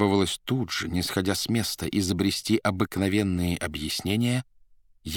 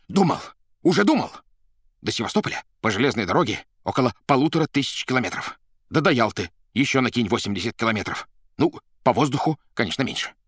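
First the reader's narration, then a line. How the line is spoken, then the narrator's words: Yelling. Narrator (Russian): Варенуха заорал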